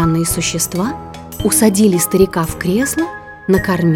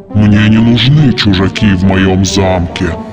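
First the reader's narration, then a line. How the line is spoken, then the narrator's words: Monster's growl. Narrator (Russian): прорычало чудовище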